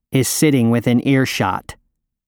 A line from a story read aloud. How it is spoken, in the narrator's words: Jacob interjects testily